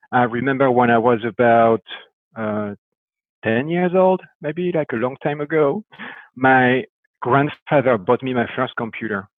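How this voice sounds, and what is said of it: French accent. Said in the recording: “the beginning was in France, I guess with my accent, it's no surprise.”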